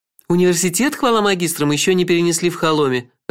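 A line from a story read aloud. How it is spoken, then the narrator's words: Laughing. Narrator (Russian): рассмеялся он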